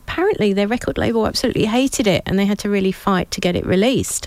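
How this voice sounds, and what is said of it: Hoarse, fading voice. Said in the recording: “sorry, I'm losing my voice”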